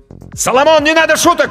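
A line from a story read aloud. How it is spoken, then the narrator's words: Shouted. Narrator (Russian): крикнул Данька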